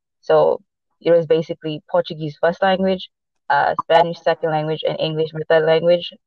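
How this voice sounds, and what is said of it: Mixed non-native English accent. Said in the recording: “my first language is not English ... it's basically mixed with a whole lot of things. Boston, LA, South Africa”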